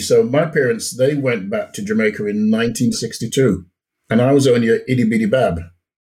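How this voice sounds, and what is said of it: Mixed Jamaican and British accent. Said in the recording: “you still have a strong, you got the mixture ... you have that Jamaican accent ... That broken English going on”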